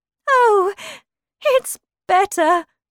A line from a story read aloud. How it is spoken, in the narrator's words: cried the Queen